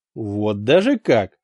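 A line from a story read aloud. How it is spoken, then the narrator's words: Scoffing grunt. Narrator (Russian): хмыкнул Адальберт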